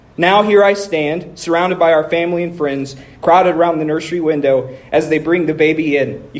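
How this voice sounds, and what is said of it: Emotional, choked-up voice. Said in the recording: “You hear that in my voice. Don't be a baby.”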